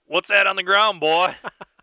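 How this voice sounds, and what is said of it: Exaggerated Southern cartoon-character accent. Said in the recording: “This is your South Carolina accent? ... That's my foghorn leghorn accent.”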